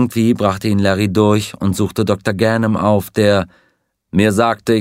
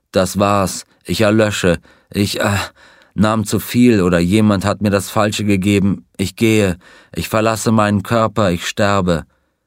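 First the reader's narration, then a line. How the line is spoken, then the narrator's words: Groaning. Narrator (German): Er stöhnte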